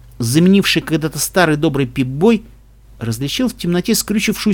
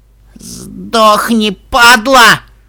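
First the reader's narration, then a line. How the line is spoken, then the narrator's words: Hoarse pony rasp. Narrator (Russian): прохрипела пони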